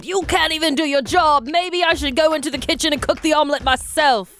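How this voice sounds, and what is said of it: Put-on British accent. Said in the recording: “That's a great British accent you got going on ... It needs work ... That's pretty accurate”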